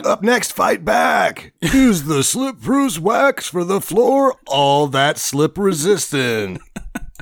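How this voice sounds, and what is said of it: Rick Dees-style radio DJ voice. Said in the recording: “Can I do that voice when we do this? ... This isn't KTLA. You're not... You're not Rick Dees, bud.”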